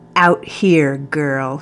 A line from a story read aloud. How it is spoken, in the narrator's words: he said, his tone growing ugly